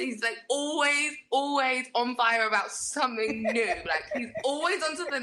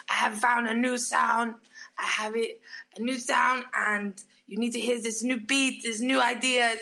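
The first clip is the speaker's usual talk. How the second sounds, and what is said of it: Imitates another person's voice. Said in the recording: “I, am really good at doing his impression now.”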